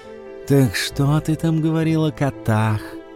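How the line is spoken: Lazy drawl. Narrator (Russian): лениво протянул он

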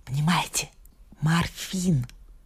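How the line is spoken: Whispered explanation. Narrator (Russian): объясняла шепотом Нюта

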